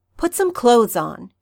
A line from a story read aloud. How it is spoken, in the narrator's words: she snaps